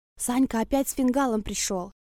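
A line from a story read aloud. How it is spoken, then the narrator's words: Whisper in ear. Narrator (Russian): Прошептала мне на ухо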